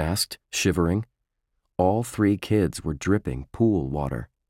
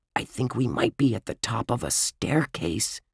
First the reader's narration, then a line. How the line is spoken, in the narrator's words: he whispered